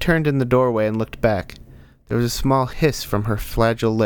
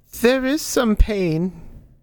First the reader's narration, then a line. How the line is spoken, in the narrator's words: Marionette whimpered